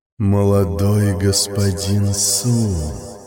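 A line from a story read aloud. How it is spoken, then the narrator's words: Deep, enchanting sing-song. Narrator (Russian): пропела глубоким, завораживающим голосом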